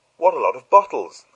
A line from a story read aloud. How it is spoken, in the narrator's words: I exclaimed